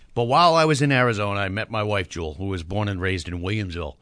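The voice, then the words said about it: Massachusetts accent. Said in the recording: “from Massachusetts. Everybody knows that. They can hear the accent in my voice.”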